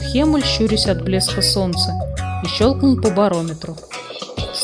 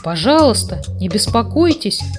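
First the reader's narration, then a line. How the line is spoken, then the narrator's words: Frightened. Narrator (Russian): испуганно сказал Хемуль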